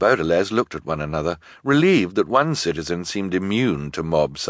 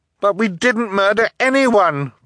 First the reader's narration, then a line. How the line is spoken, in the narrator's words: Violet cried